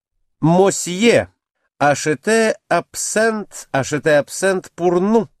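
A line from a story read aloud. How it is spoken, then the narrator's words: Plain. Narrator (Russian): сказала она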